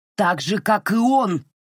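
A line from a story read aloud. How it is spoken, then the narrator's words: Thundering. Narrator (Russian): прогремел Сэл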